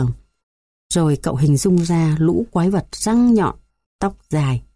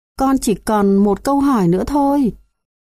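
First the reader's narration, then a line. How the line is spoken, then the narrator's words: Pleading child. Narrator (Vietnamese): con bé nài nỉ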